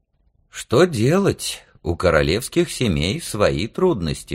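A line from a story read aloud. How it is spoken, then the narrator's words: Sighing. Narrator (Russian): вздохнул папа-король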